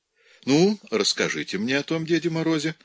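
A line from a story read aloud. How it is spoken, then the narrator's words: Cheerful encouragement. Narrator (Russian): весело поощрил их Пьер Антони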